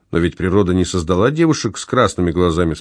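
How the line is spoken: Plain. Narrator (Russian): спросил Никита

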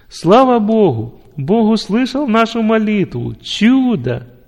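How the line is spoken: Loud joyful shout. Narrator (Russian): заставило его громко закричать от радости

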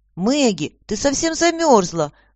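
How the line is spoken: Exclaimed. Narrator (Russian): воскликнула Аня

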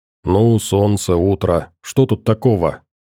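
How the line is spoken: Sleepy mumble. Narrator (Russian): пробормотал я, приходя в себя после сна

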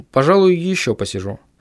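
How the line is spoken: Surprisingly calm. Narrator (Russian): сказал на удивление спокойным голосом

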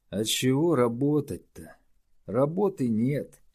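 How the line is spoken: Sad sigh. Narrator (Russian): печально вздохнул Морж

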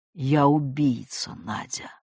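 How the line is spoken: Hollow, muffled. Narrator (Russian): проговорил глухо

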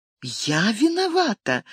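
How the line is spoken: Confused, faltering babble. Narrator (Russian): растерянно пролепетала она

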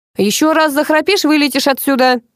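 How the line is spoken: Loud threat. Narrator (Russian): громко пообещал Паша

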